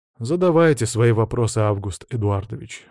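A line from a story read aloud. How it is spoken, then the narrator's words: Sigh. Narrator (Russian): вздохнул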